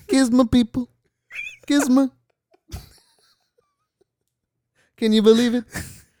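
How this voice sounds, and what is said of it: Imitates another person's voice. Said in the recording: “That real Trump accent”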